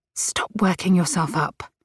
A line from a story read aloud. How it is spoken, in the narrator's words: she scolded herself in a whisper